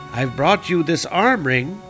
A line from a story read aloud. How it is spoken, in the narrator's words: he said